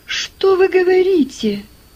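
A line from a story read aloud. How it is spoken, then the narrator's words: Astonished exclamation. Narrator (Russian): воскликнул Джордж вне себя от изумления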